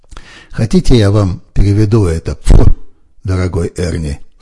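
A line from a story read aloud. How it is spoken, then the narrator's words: After laughing, teary. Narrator (Russian): сказал он, отсмеявшись и вытирая слезы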